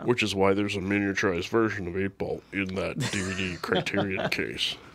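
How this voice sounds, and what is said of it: Imitates another person's voice. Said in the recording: “my Scarlett Johansson impression ... Perfect. ... Absolutely perfect.”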